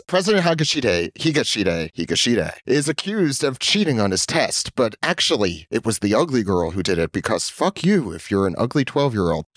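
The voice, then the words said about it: Announcer-style radio voice. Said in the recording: “I got my podcast microphone here. I'm gonna be talking in my radio voice.”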